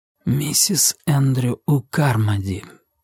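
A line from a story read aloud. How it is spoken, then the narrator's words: Whispered aloud. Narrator (Russian): прошептал вслух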